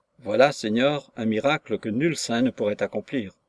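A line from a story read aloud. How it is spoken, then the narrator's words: Aloud. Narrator (French): Puis à voix haute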